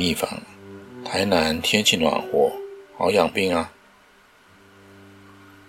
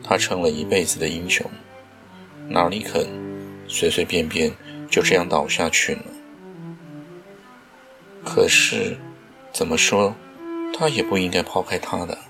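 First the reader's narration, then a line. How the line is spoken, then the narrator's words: Inner sigh. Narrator (Chinese): 秦一方 心中叹道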